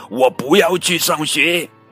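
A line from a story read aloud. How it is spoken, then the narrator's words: Angry shout. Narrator (Chinese): 露露瞪着妈妈大吼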